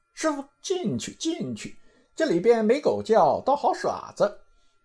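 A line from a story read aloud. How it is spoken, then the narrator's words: Laughing. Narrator (Chinese): 行者笑道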